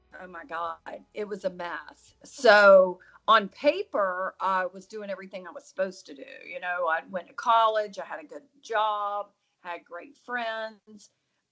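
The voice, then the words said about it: American Southern drawl. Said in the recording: “my southern drawl”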